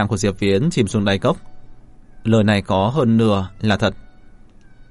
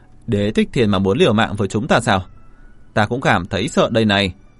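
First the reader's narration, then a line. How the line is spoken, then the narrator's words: Loud laughter. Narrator (Vietnamese): Mạnh Thân cười lớn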